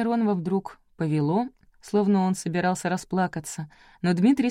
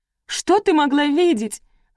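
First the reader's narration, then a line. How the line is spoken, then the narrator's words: Shouting aloud. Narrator (Russian): Александра кричала в голос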